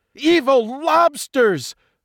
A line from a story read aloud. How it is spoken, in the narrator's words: Jaws 2 exclaimed